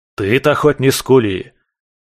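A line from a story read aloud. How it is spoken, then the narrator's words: Barked. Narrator (Russian): рявкнул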